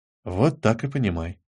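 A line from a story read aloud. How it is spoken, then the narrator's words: Whispered reply. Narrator (Russian): ответил все тот же шепот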